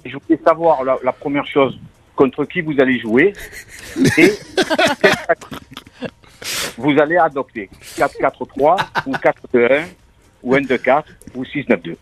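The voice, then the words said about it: Marseille accent. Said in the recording (French): “c'est un Marseillais ... Tu as un accent, écoute-moi. Écoute-moi, ton accent”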